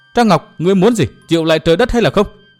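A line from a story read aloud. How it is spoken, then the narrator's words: Angry shout. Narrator (Vietnamese): Đinh Cầm nàng nổi giận hét lên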